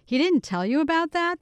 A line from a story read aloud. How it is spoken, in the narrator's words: asked, laughing